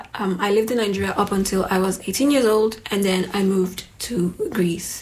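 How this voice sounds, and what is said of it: Strong Nigerian accent. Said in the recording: “my very strong Nigerian accent”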